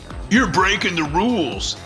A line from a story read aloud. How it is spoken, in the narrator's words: the demonic harlequin shouted